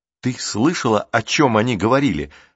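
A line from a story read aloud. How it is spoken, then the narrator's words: Plain. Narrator (Russian): спросил Рик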